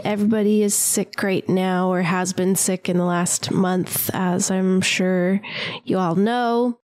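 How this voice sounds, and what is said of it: Congested, sick-sounding voice. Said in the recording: “I'm a little bit sicky. Maybe you hear my voice is a little congested.”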